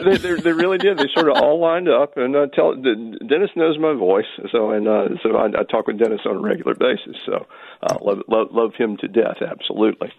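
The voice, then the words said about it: Slight Southern American accent. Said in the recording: “your little bit of Southern accent today ... I try to draw it out”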